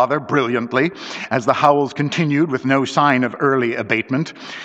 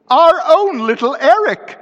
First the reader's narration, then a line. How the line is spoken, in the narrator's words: screamed Mrs